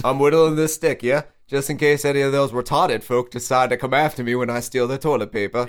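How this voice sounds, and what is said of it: Bad put-on accent. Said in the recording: “my accent's so bad.”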